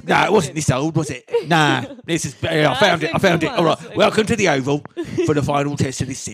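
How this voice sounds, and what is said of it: Exaggerated old man voice. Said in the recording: “I just need a different voice. I'll do an old man. ... I feel like the second one was a bit old. ... But was it this old? ... Oh, yes.”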